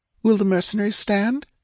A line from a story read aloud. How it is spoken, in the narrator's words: she asked anxiously